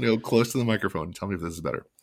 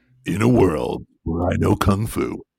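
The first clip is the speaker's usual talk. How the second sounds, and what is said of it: Movie trailer announcer voice. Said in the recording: “you sound like the trailer guy.”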